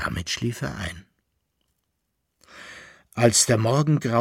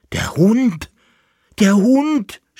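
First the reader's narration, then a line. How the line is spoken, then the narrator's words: Shouting. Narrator (German): schrie er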